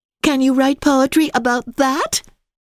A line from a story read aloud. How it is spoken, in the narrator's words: giggled Chestnut Curls